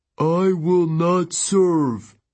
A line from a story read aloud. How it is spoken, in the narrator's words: Tyson said in a deep, wounded voice